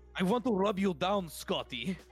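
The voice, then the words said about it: Put-on Russian accent. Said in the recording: “Russian accent. Can you do a Russian accent?”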